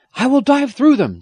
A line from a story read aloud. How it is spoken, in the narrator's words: Jim shouted back